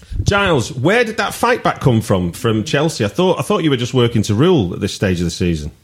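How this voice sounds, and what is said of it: Northwest English accent. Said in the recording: “I'm bringing a full Northwest accent range to this podcast”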